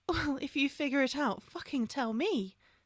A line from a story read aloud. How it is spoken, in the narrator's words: Hermione sighed